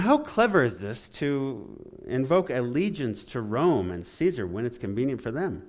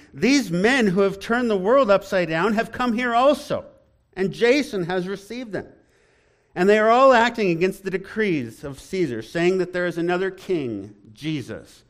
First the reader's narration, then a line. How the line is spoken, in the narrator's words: shouting